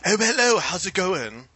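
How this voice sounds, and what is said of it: Poor put-on British accent. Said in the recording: “you're all supposed to speak in British accents ... That's not quite British. ... the world's worst British accent”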